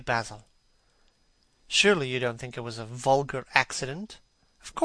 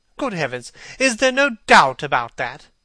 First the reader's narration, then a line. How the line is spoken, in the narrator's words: cried Hallward, with an expression of horror